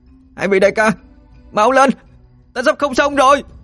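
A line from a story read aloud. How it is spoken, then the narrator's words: Loud desperate shout. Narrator (Vietnamese): A Mộc hét lớn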